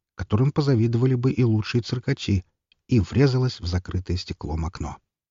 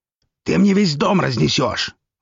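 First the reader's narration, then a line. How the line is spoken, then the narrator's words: Angry shout close to ear. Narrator (Russian): зло крикнул князь ей почти в ухо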